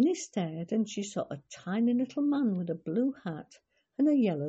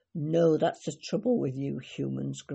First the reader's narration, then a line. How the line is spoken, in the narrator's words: grumbled the fairy man